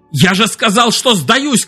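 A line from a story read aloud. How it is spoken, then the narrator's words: Shouted. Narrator (Russian): крикнул Экс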